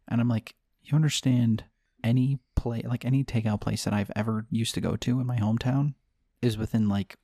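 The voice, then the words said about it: Speaking very quietly. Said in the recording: “You're talking really quiet. ... when you're purposely being quiet”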